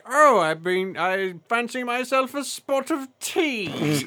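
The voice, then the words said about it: Exaggerated posh British accent. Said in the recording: “His British accent was ridiculously too proper and upper crust, though ... he was so British ... It was, so bad.”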